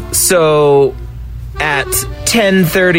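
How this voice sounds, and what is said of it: Usual voice. Nothing is said of it.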